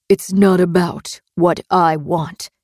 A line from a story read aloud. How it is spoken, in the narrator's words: he answered